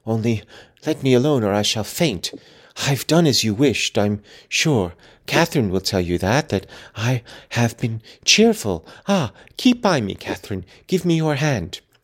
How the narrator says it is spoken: he panted

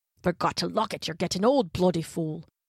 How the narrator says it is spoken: he was grumbling to himself

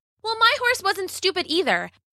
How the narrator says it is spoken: Bella shouted

